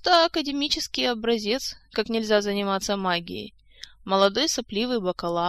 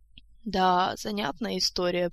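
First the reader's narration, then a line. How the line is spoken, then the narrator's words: Old man's drawl. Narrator (Russian): протянул старичок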